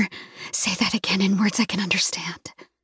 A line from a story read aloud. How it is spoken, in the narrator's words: I whisper